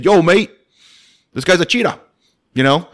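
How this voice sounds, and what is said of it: Put-on London accent. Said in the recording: “My best London accent there, you know, I was trying. ... Spot on.”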